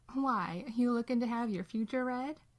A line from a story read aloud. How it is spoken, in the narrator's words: Dean laughs